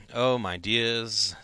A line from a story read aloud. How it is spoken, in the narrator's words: said Ian, shaking his head sadly